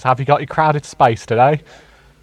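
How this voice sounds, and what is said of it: Put-on Cockney accent. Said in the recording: “say it in a more Cockney voice.”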